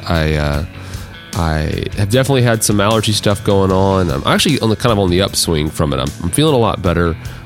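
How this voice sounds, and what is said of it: Deep, congested allergy-affected voice. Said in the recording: “tell in my voice, ... I don't feel as bad as I sound. ... I get to sound kind of like Barry White”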